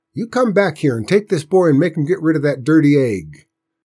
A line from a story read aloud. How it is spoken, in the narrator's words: she raised her voice